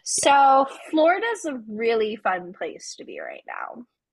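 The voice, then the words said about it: Sarcastic tone. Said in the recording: “You're being sarcastic. ... So sarcastic.”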